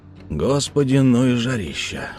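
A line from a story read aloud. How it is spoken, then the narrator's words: Sigh. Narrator (Russian): вздохнул Малдун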